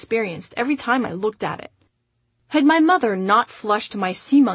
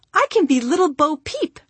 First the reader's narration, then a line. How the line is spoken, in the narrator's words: she exclaimed